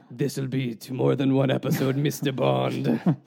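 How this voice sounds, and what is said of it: Raspy smoker-like Bond villain voice. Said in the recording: “That makes my wife sound like she is a smoker. ... A Bond villain? ... I don't even know why my voice went there”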